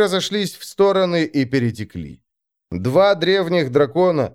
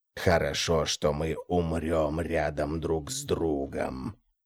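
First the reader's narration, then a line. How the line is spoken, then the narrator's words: Growled. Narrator (Russian): прорычал Тулос отсеченный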